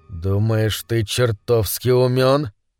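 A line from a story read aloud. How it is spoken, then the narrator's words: Menacing hiss. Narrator (Russian): прошипел Глен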